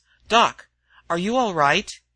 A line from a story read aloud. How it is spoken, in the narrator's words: he was asking sharply